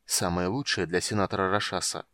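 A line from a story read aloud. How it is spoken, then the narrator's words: Mutter. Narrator (Russian): пробормотал Танис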